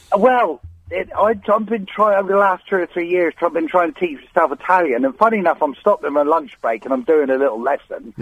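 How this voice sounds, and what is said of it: Strong Cornish accent. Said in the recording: “They love your accent so much that sometimes they think they're going to ring in Mystery Hour with a question about Cornwall ... my accent gets stronger, so it's probably quite strong today.”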